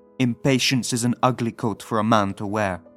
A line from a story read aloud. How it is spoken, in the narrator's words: father would shout, reddening with rage